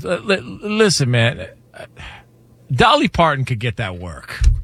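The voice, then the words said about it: Impression of a man, resigned tone. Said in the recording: “That's actually a great impression... You could hear the moment you gave up.”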